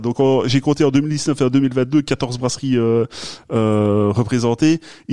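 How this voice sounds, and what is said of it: Regional French accent coming through. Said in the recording (French): “C'est mon accent qui ressort là. On est entre nous et ça ressort.”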